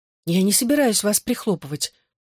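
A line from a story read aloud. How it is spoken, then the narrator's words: Soft. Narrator (Russian): мягко произнесла Рос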